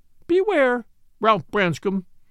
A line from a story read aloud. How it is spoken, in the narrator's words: cried the lady